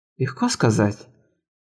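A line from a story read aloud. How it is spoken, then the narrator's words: Mutter with a smirk. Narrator (Russian): пробормотала она, усмехнувшись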